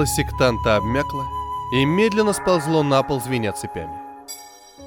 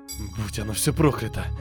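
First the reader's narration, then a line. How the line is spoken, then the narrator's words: Whisper. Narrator (Russian): прошептал он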